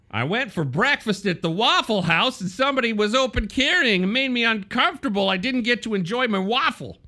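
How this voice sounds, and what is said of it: Mocking Southern Waffle House customer voice. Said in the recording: “my impression of people at the Waffle House ... vaguely bigoted the way you said that. It's anti-Southern”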